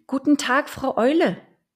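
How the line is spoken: Calling upward. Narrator (German): rief sie zur Eule hinauf

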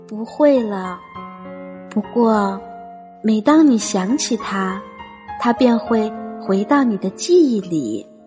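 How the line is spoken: Gentle. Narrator (Chinese): 妈妈温柔地说

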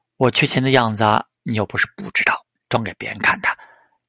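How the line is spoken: Smiling. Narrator (Chinese): 陶志明微笑

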